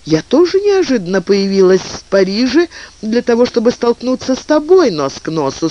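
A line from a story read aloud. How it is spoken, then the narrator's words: Laughing, tender, youthful. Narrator (Russian): сказала она, рассмеявшись своим нежным и юным смехом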